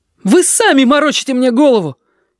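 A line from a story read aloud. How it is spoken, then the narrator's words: Shout of desperate defiance. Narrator (Russian): Ёжики крикнул это с дерзостью отчаяния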